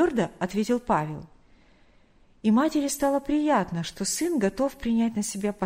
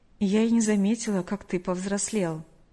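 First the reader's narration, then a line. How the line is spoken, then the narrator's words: Slightly sad, smiling. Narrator (Russian): немного грустно улыбнулась она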